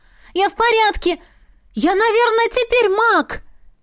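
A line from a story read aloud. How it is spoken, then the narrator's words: Shouted. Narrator (Russian): крикнула Вирги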